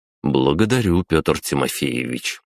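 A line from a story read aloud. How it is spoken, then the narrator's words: Calm. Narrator (Russian): спокойно ответил я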